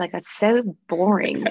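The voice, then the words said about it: Put-on Australian accent. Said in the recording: “Can you do a bit of an accent for us? ... an Australian person ... Mean Aussie. Yeah, I see it.”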